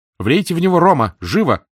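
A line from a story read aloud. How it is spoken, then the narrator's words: Shouted in French. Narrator (Russian): крикнула Летиция по-французски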